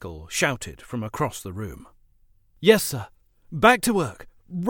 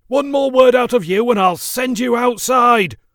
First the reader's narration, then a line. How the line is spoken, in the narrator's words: hollered Speckle